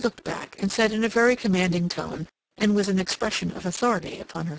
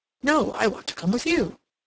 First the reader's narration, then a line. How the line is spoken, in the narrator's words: he exclaimed